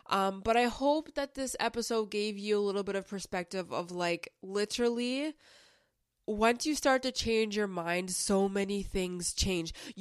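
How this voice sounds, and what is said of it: Voice sounds sick. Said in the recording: “apologize for the voice. My voice, I'm kind of like under the weather”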